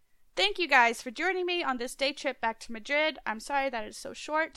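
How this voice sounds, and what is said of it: Congested voice from a cold. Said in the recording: “I have a bit of a cold”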